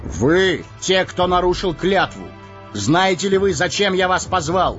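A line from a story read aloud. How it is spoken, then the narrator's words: Raised thundering voice. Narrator (Russian): Арагорн возвысив голос, прогремел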